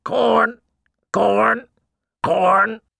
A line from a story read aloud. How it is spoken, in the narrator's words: The bird shrieked